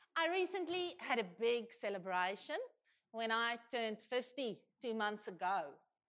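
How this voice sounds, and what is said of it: Speaks with a non-local accent. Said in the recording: “in my case, a different accent”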